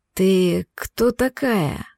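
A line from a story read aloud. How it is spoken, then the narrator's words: Hoarse male voice. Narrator (Russian): Хриплый мужской голос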